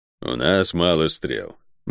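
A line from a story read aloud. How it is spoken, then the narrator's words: Gloomy. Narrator (Russian): мрачно произнес Водор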